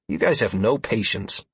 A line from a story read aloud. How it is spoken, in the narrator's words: I grunted